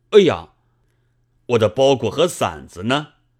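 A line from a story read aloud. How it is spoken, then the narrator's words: Crying out. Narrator (Chinese): 叫了起来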